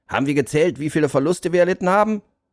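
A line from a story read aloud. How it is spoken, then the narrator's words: Calling out. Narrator (German): rief er in die Runde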